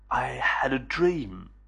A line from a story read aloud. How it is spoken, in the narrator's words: whispered Billy